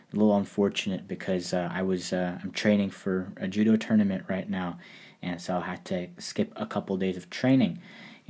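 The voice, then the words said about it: Scratchy voice from a cold. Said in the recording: “My voice is a little scrappy. I got sick again ... I tend to get colds quite often”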